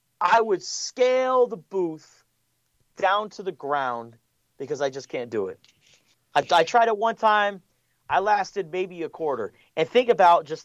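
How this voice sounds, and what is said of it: Don Brown impression, East Coast Boston accent. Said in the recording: “you do a good Don Brown ... that was a pretty good Don Brown or a really bad Andrew Dice Clay ... my East Coast Boston Maine accent uh, that he has”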